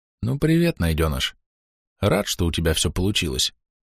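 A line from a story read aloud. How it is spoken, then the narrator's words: Quiet voice. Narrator (Russian): негромко произнес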